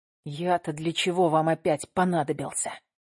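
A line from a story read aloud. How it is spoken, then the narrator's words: Hissing. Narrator (Russian): прошипел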